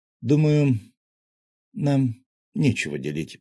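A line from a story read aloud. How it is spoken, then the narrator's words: Slow. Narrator (Russian): медленно произнес я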